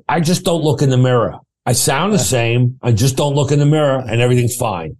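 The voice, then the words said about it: Imitated thick Queens accent. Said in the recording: “doing an imitation of him. He's from Rosedale, Queens. So he's got a thick Queens accent.”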